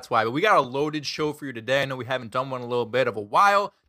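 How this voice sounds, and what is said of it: Sick, slightly rough voice. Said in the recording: “I am a little bit under the weather. So if my voice sounds crappy or I do a voice crack every once in a while”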